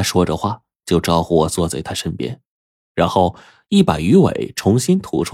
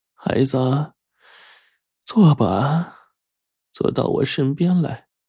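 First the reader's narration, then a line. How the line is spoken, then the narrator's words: Sighing old woman. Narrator (Chinese): 祖奶奶这时候一叹道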